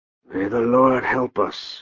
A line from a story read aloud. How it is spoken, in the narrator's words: Manfred whispered for Dietrich's ear